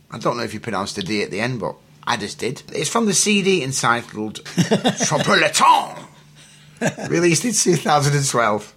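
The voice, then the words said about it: Strong French accent. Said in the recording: “I'm French. That's why I speak with this outrageous accent.”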